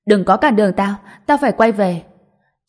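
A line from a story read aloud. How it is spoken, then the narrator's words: Angry shout. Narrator (Vietnamese): Tôi nổi giận hét vào nó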